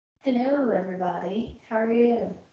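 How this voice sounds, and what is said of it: Odd put-on accent. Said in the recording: “that was a weird accent. I don't know what that was.”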